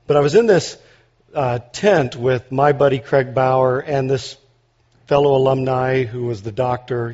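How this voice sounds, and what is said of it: Hoarse, nearly lost voice. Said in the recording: “my voice is about gone from yelling, as well as whatever's been happening to everybody with their, you know, colds”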